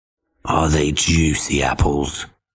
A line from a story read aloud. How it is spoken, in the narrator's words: the wolf growled up to him, trying to sound friendly